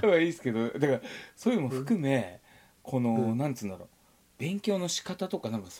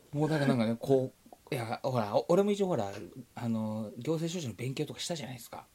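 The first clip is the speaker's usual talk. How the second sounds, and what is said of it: Speaking in a hushed whisper. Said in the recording (Japanese): “こそこそ ... 小声じゃ、なんで小声なんだ、 ... なんで小声なんです”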